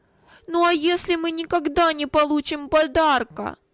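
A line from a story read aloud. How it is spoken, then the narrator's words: Timid tearful objection. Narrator (Russian): осмелился возразить плачущим тоном Вилли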